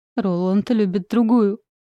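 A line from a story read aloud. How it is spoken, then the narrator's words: Shouted between sobs. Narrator (Russian): Выкрикиваю между всхлипываниями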